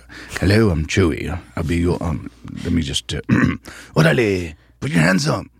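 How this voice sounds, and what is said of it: English accent. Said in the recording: “I had an English accent.”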